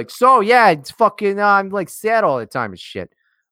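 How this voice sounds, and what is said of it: Bad generic Italian-American accent. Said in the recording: “Like that's not Tony Soprano at all ... it was really bad ... It was the wrong guy. I did it wrong. I just did a default Italian.”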